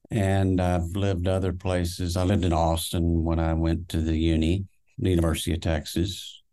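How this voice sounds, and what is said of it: Southern accent, not Texan. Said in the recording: “That's why I have this accent going... It didn't sound like a Texan accent.”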